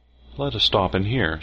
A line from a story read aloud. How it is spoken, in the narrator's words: said Miss Stewart